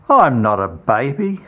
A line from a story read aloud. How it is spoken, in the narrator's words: says Judas scoffingly